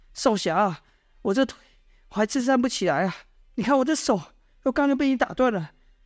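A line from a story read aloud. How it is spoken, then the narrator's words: Pleading. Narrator (Chinese): 那奸细就趴在地上哀求道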